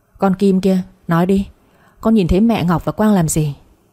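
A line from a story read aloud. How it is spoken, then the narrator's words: Furious, hard-pressed voice. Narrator (Vietnamese): Bố tôi rất tức giận, gằn giọng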